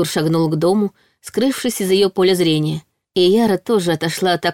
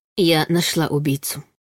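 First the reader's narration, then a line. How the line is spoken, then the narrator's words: Quiet. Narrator (Russian): тихо сказала Яра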